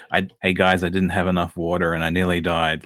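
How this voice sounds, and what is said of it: Flat monotone imitation of another person. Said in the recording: “I'm not going to do an impression, but I might ... you just got that almost monotone. I'm probably doing a horrible job of it”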